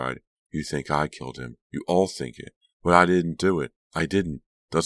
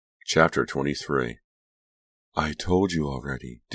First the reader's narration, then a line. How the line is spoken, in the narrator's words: Delia sighed